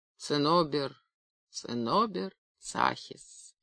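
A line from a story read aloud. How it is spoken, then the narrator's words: Quiet. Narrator (Russian): тихо сказал редактор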